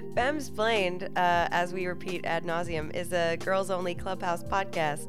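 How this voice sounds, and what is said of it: Congested voice from a cold. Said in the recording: “You have a bit of a cold.”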